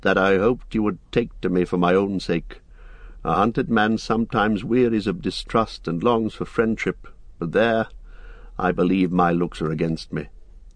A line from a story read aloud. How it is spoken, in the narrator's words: he added with a queer laugh